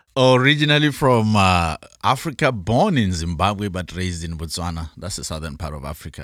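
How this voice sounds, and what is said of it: Afro-British accent. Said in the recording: “probably the coolest accent so far on the show this season ... So I speak with an Afro-British accent.”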